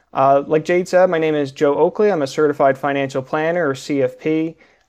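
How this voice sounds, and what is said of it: North Jersey accent. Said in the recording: “my North Jersey coffee accent”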